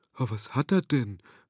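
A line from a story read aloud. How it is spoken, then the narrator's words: Frightened whisper. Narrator (German): flüsterte Wendelin erschrocken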